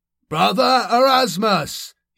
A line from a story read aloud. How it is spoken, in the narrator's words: shouted